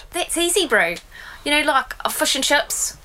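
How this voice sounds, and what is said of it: Put-on New Zealand accent. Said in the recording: “Oh, New Zealand.”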